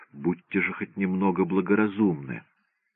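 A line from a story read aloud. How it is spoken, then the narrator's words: Whisper. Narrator (Russian): она прошептала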